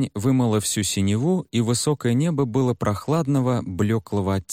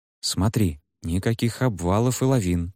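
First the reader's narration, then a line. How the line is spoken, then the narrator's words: Quiet voice. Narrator (Russian): негромко заговорил Шимин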